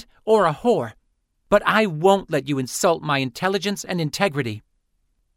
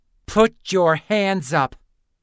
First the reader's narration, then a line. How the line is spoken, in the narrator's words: Lynn snarled, reminded of how much she hated that first nickname